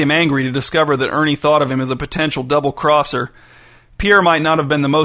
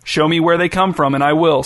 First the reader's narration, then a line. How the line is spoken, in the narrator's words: said Pierre